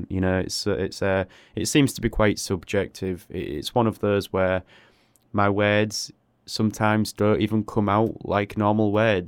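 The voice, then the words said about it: Strong accent that drops letters. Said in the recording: “you have such a cool accent ... I tend to have this accent, which just misses out letters and misses out certain”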